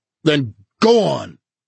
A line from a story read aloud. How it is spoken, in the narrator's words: he shouted at her